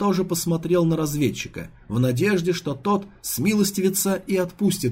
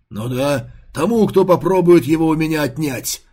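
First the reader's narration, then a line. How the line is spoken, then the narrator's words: Joyful agreement. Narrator (Russian): радостно согласился Бустер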